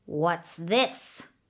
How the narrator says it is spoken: she asked, her voice harsh as the croak of a raven

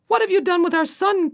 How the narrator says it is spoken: cried he

